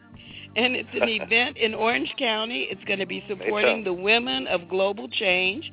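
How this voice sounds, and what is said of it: Strained, fading voice. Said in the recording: “I don't know why I'm losing my voice.”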